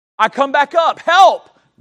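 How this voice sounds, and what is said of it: Loud booming preacher-style yell. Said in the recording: “I yell in the best preacher voice I possibly can”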